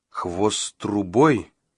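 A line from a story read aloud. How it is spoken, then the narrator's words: Muttered. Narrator (Russian): пробормотал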